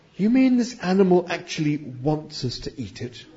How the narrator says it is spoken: whispered Trillian to Ford

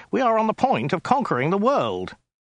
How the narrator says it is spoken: interrupted Ogdai urgently

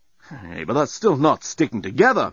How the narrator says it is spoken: moaned Dan

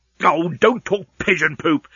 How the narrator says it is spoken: snapped Leovinus

